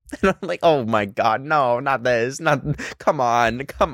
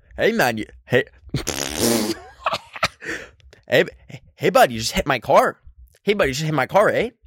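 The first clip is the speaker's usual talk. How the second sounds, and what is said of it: Put-on redneck Canadian accent. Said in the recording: “let me do like a really redneck Canadian accent.”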